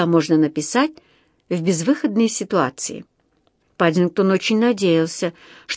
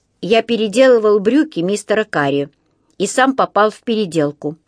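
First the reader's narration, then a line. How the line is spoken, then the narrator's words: Plain. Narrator (Russian): ответил Паддингтон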